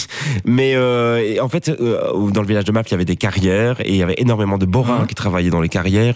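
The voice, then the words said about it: Belgian Hainaut regional French accent. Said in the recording (French): “À entendre ton accent, j'imaginais que tu étais originaire plutôt du Borinage, de la région de Mons ... Hattes, l'accent de l'Est et l'accent de l'Ouest. Et moi, j'ai l'accent de l'Est”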